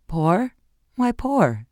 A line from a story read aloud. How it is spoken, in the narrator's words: she echoed with a strained laugh